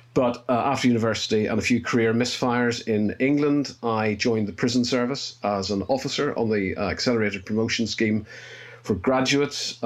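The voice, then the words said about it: Northern Irish accent. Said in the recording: “You can probably tell from my accent, I'm Northern Irish.”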